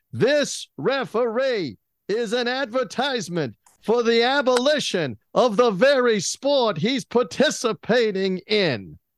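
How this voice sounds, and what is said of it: Imitates a sports broadcaster's voice. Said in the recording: “my impersonation ... I am actually good at Cosell. I may not be good at all of them”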